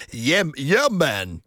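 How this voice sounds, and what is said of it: Put-on Jamaican accent. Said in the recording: “doing a Jamaican accent”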